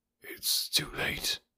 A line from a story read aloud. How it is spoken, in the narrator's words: whispered